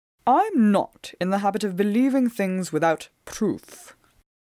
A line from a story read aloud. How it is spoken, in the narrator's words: Phelps replied a little sharply